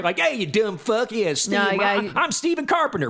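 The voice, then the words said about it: Put-on dumb Southern accent. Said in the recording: “doing the Southern voice ... dumb voice”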